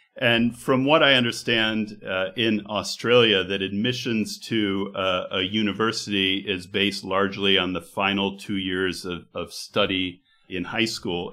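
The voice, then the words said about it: American accent. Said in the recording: “your American accent”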